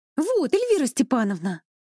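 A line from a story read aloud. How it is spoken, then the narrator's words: Joyful. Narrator (Russian): радостно сказала она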